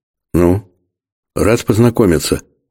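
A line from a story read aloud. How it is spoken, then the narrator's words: Awkward mumble. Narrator (Russian): стесненно промямлил кожник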